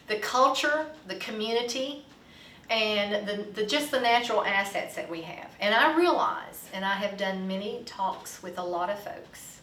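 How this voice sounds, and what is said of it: Southern drawl and twang. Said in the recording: “Can't you hear my drawl here and my twang?”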